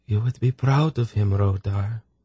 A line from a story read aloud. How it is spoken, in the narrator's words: she whispered sadly